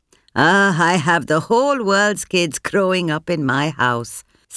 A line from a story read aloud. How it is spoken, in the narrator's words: Sampat once said with a tired laugh